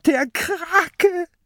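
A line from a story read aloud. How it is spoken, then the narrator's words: Shrieking. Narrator (German): kreischt Mathilda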